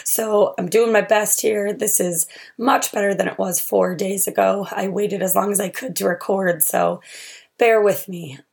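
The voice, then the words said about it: Rough voice from a cold. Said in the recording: “My voice is on the fritz. I got the cold”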